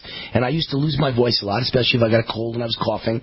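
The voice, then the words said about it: Naturally hoarse voice. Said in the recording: “I've always had a hoarse voice. I mean, you hear me. I'm just naturally kind of a hoarsey voice.”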